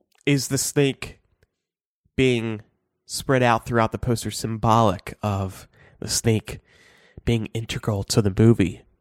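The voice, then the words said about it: Congested, strained voice. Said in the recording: “Sorry, I have a cold right now. I can barely talk.”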